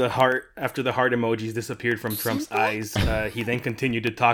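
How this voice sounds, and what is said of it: Usual voice. Nothing is said of it.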